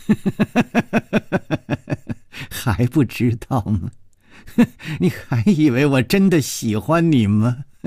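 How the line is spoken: Laughing, venomous and menacing. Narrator (Chinese): 他不停地笑，充满了怨毒和杀机

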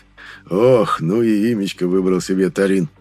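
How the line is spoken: Quiet chuckle. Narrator (Russian): хохотнул Лиас так, чтобы лишь я его мог услышать

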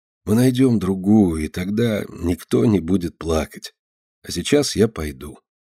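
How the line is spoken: Gentle smiling repetition. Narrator (Russian): мягко улыбаясь, повторяет он

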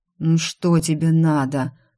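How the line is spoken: Moan. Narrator (Russian): Простонал

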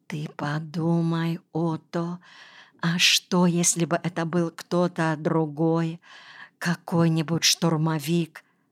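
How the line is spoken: Terrified whisper. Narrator (Russian): в крайнем испуге прошептала

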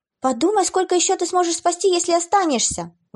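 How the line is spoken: Sobbing exclamation. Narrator (Russian): воскликнула Клэр, рыдая рядом с мамой

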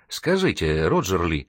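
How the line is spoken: Timid. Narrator (Russian): робко продолжила Вероника

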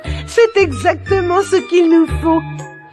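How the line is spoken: Laughing retort. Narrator (French): rétorqua en riant

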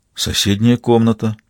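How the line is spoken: Crushed, devastated voice. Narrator (Russian): убитым голосом сообщил Ратушинский

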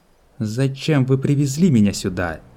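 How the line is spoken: Angry question. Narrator (Russian): зло спросила Сиона

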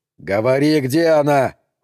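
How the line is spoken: Yelling. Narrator (Russian): заорал он

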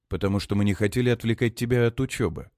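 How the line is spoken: Calm. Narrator (Russian): спокойно отвечает отец

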